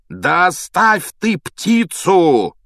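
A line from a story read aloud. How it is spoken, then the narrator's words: Furious yelling. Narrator (Russian): бешено орал Реддл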